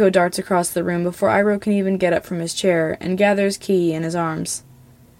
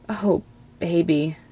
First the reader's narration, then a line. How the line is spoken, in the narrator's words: Zuko whispers, and all the anger seems to have melted out of his shoulders